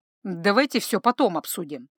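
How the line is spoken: Slightly irritated. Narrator (Russian): чуть раздраженно

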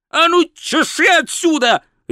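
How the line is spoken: Barked. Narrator (Russian): рявкнул волшебник

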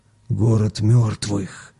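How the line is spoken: Loud whisper. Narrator (Russian): Сергеич громким шепотом сказал

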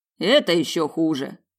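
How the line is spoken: Mage smirking. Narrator (Russian): хмыкнул маг

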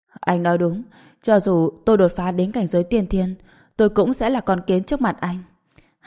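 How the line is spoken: Sighing speech. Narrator (Vietnamese): hắn thở dài, nói

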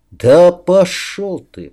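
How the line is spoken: Through gritted teeth. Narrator (Russian): процедил я императору

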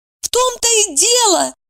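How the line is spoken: Exclamation. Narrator (Russian): воскликнула Евдокия

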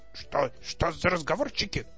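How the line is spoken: Grumbled. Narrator (Russian): проворчал Максимилиан

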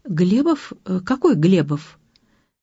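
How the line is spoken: Confused question. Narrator (Russian): Илья, переспросил растерянно

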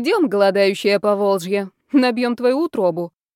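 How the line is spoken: Grumbling. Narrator (Russian): проворчала Элеонора

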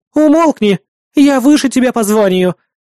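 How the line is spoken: Exclaiming. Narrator (Russian): воскликнула

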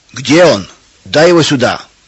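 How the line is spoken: Shout. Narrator (Russian): кричал Федор

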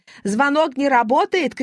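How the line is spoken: Shouting. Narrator (Russian): кричала

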